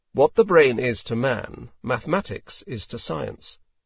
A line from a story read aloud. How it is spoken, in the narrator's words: He flatly stated